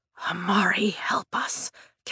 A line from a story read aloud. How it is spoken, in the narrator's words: Calvin whispers, his panic palpable